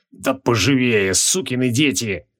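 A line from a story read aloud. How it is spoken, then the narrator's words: Hoarse rasp, fading. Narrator (Russian): прохрипел Джориан, теряя сознание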